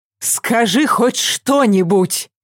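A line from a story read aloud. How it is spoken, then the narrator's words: Angry command. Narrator (Russian): велела Вика сердито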